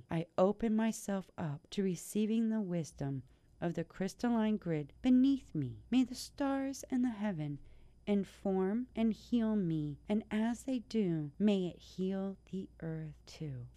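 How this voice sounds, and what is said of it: Whispering. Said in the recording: “I'm whispering this”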